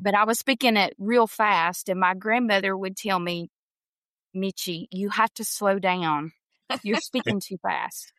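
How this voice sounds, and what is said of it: Southern drawl accent. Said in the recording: “that Southern drawl, that Southern accent”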